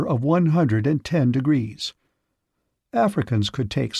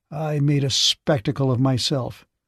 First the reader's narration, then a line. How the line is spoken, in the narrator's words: said Boardman bitterly